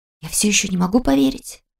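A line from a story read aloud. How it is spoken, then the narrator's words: Whisper with forced smile. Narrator (Russian): шепнула я, не забывая натянуто улыбаться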